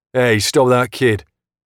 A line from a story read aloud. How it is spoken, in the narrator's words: I shout